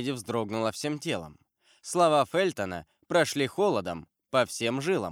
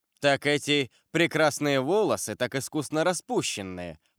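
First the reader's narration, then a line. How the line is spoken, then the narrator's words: Laughing. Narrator (Russian): продолжал лорд Винтер, смеясь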